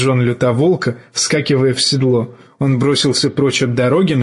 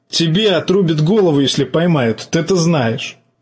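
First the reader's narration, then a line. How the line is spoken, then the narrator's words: Nervous laugh. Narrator (Russian): жаба нервно хохотнул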